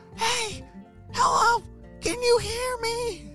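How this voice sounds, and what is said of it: Whisper-yelling. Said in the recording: “whisper yell ... That's a funny way to talk.”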